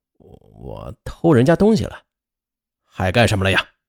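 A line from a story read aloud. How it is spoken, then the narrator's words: Low, steadied voice. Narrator (Chinese): 他稳定了一下情绪，低声说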